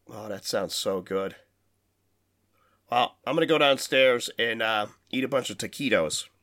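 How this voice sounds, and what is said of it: Tired, worn-out voice. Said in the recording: “I am fucking worn out. My voice is tired. I've taken another lozenge.”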